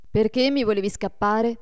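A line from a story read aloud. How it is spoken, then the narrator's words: Reproachful question. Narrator (Italian): gli domandò Adolfo in tono di rimprovero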